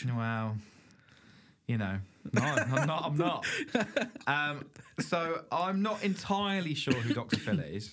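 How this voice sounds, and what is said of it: Non-American accent. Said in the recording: “I'm not an American, as you can probably tell from my accent”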